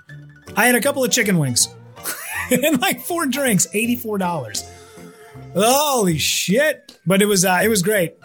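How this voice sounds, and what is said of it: Worn-out, strained voice. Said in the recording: “as you can tell, my voice is pretty much shot because I've been yeah, you know, indulging a little bit over the last couple of days and then was up super late”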